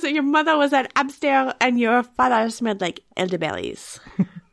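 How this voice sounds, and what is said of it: Put-on French accent. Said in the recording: “He's French. That was my best French accent.”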